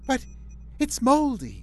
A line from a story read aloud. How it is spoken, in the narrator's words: she cried